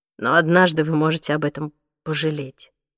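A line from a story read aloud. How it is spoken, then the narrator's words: Quiet. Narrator (Russian): тихо произнес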